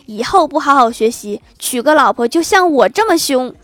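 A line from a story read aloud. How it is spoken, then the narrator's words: Angry roar. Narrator (Chinese): 郭大嫂 大吼说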